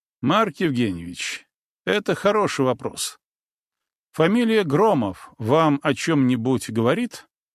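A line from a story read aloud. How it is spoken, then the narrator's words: Calm statement. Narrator (Russian): спокойно произнес полковник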